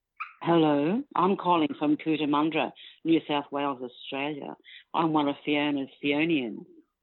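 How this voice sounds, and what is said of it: Australian accent. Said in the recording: “Accent too. Oh my God, this is so sexy.”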